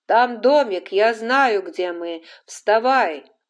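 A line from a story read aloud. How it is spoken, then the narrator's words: Shouting. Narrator (Russian): крикнул Скарлетт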